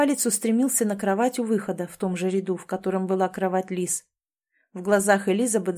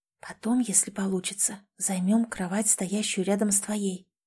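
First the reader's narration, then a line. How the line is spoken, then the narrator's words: Soft whisper. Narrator (Russian): тихо прошептала она Лис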